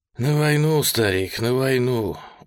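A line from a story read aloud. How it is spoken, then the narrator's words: Tired reply. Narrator (Russian): устало ответил Федор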